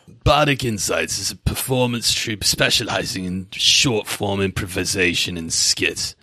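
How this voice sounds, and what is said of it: D&D character voice. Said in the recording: “can I do it with my character voice? ... Oh, I'm ready for your character voice.”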